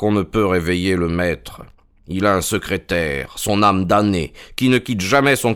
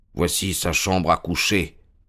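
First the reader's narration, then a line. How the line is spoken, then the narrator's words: Murmuring. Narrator (French): murmura Holmes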